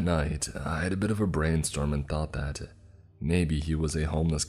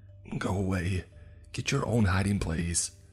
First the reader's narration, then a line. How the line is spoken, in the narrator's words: pleaded in a hissing whisper